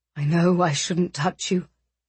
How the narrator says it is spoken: he said, his voice rough

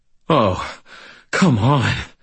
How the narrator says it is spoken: I said, panting

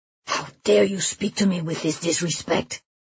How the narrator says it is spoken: He hisses

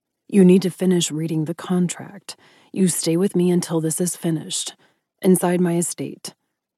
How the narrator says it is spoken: Ryder growled

